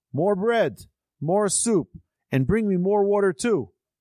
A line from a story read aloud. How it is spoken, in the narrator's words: yelled